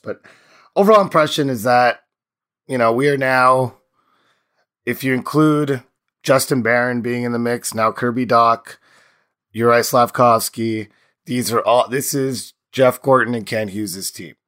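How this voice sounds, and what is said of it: Hoarse, strained voice. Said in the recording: “My voice is in shambles ... lots of screaming. So please apologize my voice.”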